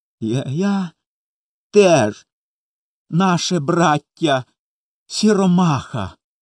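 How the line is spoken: Sobbing speech. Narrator (Ukrainian): схлипуючи, промовив Коля

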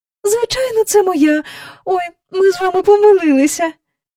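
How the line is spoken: Cried out. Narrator (Ukrainian): скрикнула

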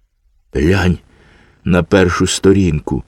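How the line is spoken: Little boy says sadly. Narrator (Ukrainian): сумно сказав малий

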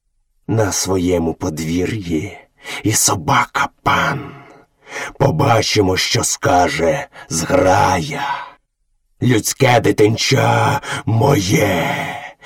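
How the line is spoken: Growled. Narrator (Ukrainian): з гарчанням витяг голову і, трохи одійшовши, прогарчав

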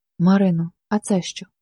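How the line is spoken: Muffled voice. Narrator (Ukrainian): спитав глухим голосом

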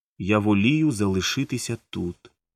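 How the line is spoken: Calm reply. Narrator (Ukrainian): спокійно відповіла

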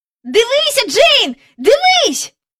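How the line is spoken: Shouting. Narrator (Ukrainian): закричав він

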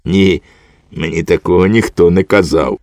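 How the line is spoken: Soft laugh. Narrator (Ukrainian): тихенько засміявся і мовив

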